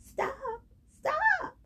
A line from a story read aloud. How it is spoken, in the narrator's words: yelled